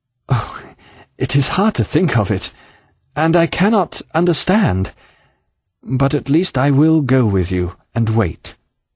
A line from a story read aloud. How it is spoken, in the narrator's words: said in a broken voice